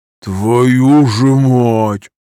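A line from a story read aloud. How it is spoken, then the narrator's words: Breathing out. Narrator (Russian): выдохнул Петруха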